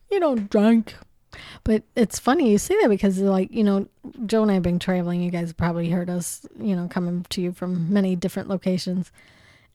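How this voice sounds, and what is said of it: Strained, fading voice. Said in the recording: “I'm losing my voice today. I've been on the horn all day.”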